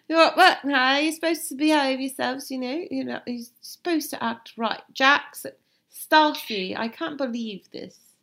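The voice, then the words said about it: Impression of Lisa Vanderpump's accent. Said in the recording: “Lisa is amused by it all ... or you do the accent”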